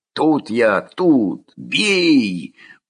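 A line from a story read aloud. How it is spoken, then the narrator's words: Choked wheeze. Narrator (Russian): удушенно захрипел Коля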